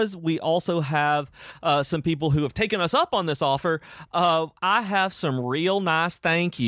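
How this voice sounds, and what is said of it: Usual voice. Nothing is said of it.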